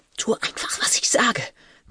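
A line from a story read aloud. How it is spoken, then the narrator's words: Hissed. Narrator (German): zischte sie jetzt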